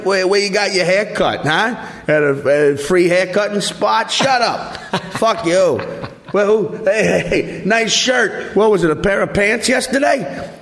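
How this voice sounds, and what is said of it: Slow drunken New Orleans drawl. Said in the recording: “New Orleans accent. It's just sort of a slow guy from Brooklyn with a drawl who's just drunk”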